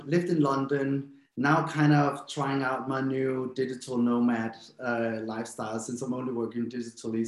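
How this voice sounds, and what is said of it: Danish accent in English. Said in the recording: “We hear some accent ... I'm from Denmark ... my accent isn't very strong, but my boyfriend tells me something else”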